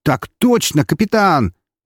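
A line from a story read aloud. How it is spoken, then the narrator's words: Excited exclamation. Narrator (Russian): возбужденно воскликнул корабль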